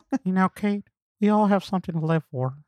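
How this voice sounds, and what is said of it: Imitates another person's voice. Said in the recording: “These are the worst Woody Harrelson ... we don't do your voice justice”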